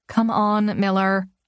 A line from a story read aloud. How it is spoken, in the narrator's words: I groan